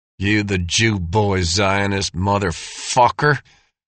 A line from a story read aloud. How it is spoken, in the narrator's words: snarled the tallest of the skinheads